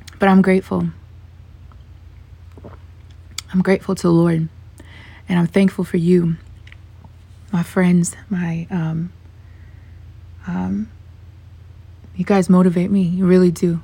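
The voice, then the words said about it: Worn, strained hoarse voice. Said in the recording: “As you can hear, my voice is a little bit shot”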